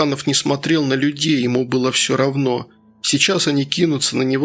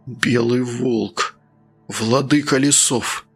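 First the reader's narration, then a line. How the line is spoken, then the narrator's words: Muttered. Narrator (Russian): пробормотал Евграфыч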